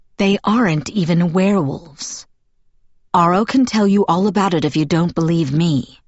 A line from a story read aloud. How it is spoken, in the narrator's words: answered evenly